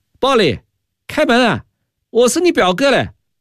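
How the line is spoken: Loud shout. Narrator (Chinese): 石忠信大叫道

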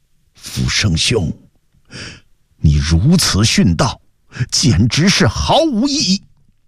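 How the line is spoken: Sighing voice from outside. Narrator (Chinese): 窗外一个声音叹道

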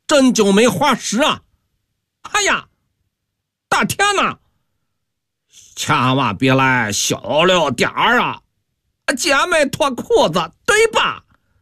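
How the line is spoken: Gamblers' hoarse shouting. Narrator (Chinese): 赌徒个个破着嗓子喊叫

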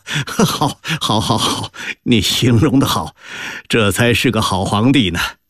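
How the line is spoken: Roaring laughter, coughing. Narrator (Chinese): 康熙不禁捧腹大笑，咳嗽着说

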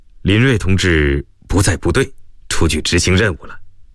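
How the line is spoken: Faint smile. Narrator (Chinese): 耿辉淡淡一笑

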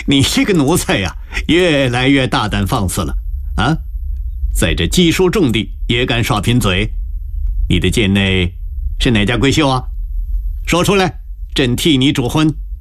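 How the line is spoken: Laughing loudly. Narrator (Chinese): 康熙不禁纵声大笑，点着高士奇道

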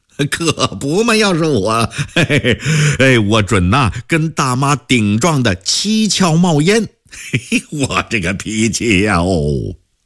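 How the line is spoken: Hearty agreement after laughing. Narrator (Chinese): 詹丽颖 呵呵的仰脖笑了起来，笑完了大表赞同

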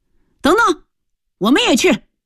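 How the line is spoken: Shout. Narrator (Chinese): 身后忽然有人喊了一声

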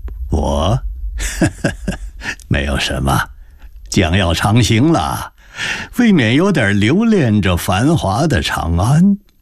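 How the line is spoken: Smiling. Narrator (Chinese): 张建勋换了笑脸说道

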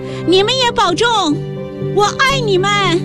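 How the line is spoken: Shouting. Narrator (Chinese): 李娟也喊了两句

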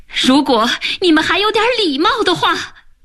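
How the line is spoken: Furious shouting. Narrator (Chinese): 他气急了，喊道

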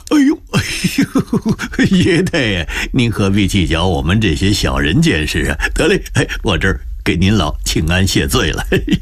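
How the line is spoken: Fawning, smiling. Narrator (Chinese): 满脸堆笑说

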